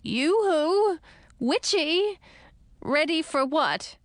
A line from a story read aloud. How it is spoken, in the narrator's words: Edric echoed me in a shaky voice